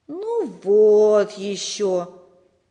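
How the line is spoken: Disappointed drawl. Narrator (Russian): разочарованно протянул Сережа

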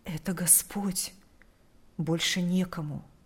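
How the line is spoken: Whispered reply. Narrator (Russian): Прошептал в ответ

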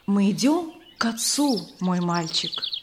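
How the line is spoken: Gentle reply. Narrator (Russian): ласково ответил Иисус

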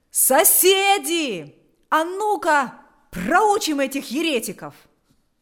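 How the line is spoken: Shouted. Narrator (Russian): Кто-то закричал

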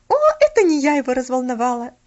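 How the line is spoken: Laughing. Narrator (Russian): засмеялась она

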